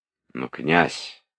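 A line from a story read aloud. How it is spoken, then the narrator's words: Timid. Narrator (Russian): робко сказал де Саль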